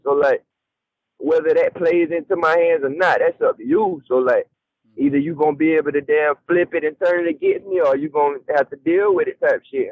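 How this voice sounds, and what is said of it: Southern US country accent. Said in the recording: “my accent ... I can't help the way I talk ... I'm a southern ass country nigga”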